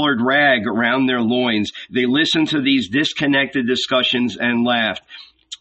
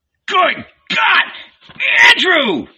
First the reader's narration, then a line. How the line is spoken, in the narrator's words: shouted Zebedee